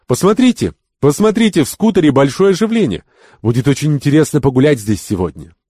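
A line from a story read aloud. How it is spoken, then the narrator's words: Cheerful shout. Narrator (Russian): молодая цыганка весело закричала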